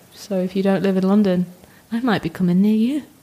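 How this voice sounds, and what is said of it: Creepy voice. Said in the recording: “Didn't mean to say that in such a creepy voice.”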